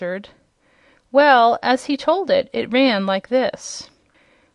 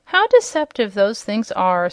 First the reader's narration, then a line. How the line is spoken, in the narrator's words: sighed the king